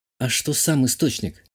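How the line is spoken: Surprised whisper. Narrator (Russian): спросила себя и удивленно шепнула

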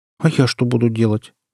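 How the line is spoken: Sad question. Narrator (Russian): грустно спросила Валерия

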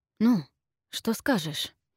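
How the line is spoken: Whisper. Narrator (Russian): прошептал Джереми

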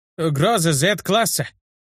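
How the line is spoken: Shouted out. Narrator (Russian): выкрикнул нелепо одетый лучник шестого уровня

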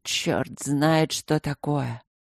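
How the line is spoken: Muttered. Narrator (Russian): пробормотал Михей

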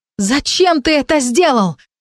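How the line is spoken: Shouting. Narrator (Russian): закричала

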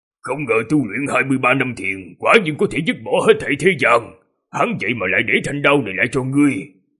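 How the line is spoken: Slightly hoarse voice. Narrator (Vietnamese): giọng nói hơi khàn khàn

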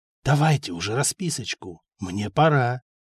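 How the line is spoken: Whispered in ear. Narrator (Russian): прошептал на ухо

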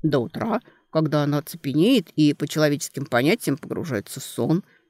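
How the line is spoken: Plain. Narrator (Russian): ответил Дан Конлет

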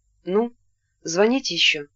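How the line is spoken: Timid question. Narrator (Russian): спросил он робко Ирину

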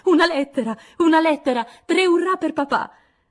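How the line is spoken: Shouting. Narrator (Italian): Joe gridando

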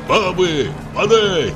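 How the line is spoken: Shouting. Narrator (Russian): кричал

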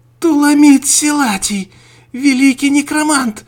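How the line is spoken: Shouting. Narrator (Russian): закричала Мария

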